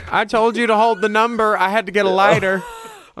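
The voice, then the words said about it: Put-on Southern US accent. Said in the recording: “I'm sorry for this offensive accent... Most people that abandon their kids are Southern... Well, Florida.”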